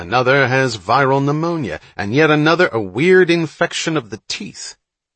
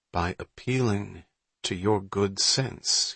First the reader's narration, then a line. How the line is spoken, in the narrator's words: he said, as calmly as he could